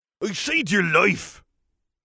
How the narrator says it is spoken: he yelled angrily

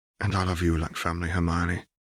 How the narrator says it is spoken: Harry whispered back

